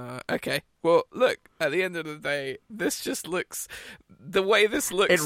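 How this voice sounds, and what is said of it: Usual voice. Nothing is said of it.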